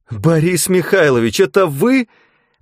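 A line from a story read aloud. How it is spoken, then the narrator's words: Squeal. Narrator (Russian): взвизгнула Вероника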